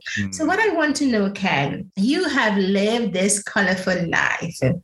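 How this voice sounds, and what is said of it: West Indian Caribbean accent. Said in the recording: “it's English that I spoke is my Caribbean. It's my West Indian with my West Indian accent. So it will sound a little bit different”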